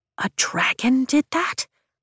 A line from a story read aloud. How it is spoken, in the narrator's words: I whisper